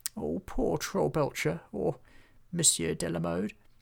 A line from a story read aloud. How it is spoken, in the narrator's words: murmured Hobgob